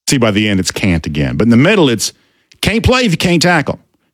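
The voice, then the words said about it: Southern American accent. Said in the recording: “Good to hear the Southern accent coming back on”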